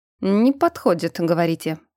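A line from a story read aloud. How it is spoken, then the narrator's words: Thoughtful repetition, archmage. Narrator (Russian): задумчиво повторил архимаг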